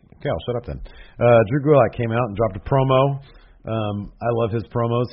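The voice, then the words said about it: Strained voice close to giving out. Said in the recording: “My voice is this close to completely giving out. ... I just felt it in the back of my throat.”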